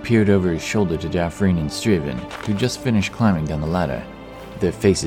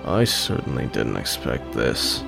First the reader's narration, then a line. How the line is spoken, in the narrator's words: grumbled Striven